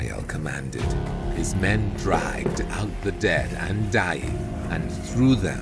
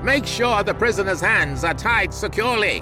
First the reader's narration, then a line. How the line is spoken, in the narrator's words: Ishmael shouted